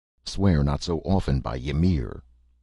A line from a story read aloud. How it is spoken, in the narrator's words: uneasily muttered a warrior